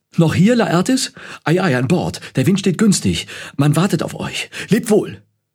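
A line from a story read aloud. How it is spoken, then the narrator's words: Hurried father calling excitedly. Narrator (German): ihr Vater herbeigehastet und rief aufgeregt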